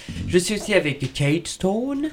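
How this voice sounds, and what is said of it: Deliberately bad English accent. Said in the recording (French): “je le dis avec l'accent anglais très mauvais à chaque fois”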